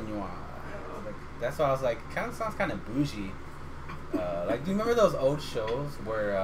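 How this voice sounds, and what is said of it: Usual voice. Nothing is said of it.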